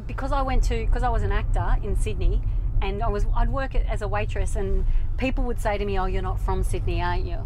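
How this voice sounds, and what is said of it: Strong Australian accent. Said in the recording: “I can totally hear my accent getting stronger talking to you.”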